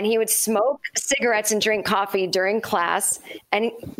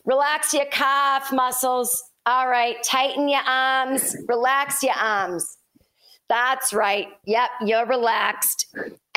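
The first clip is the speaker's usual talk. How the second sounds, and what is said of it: Put-on Boston accent. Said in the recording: “Boston accent ... And that was his voice”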